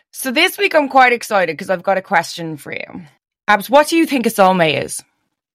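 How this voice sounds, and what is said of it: Slightly hoarse, tired voice. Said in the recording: “I'm a, a little bit hoarse, a little bit tired this week”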